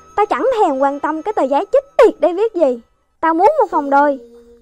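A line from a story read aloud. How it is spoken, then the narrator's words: Angry man. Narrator (Vietnamese): Ông khách càng giận dữ hơn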